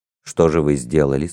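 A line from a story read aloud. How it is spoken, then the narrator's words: Plain. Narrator (Russian): спросил Холмс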